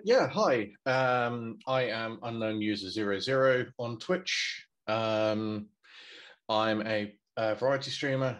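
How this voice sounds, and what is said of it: British accent. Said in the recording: “As you can probably tell from the accent, I'm here in the UK.”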